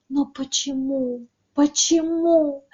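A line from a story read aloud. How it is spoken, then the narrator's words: Sorrowful hopeless whisper. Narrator (Russian): зашептала горестно и безнадежно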